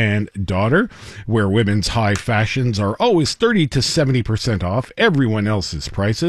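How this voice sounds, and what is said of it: Usual voice. Nothing is said of it.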